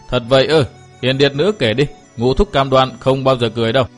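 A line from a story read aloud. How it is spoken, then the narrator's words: Hearty loud laughter. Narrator (Vietnamese): Phác Ma Thiên ha hả cười to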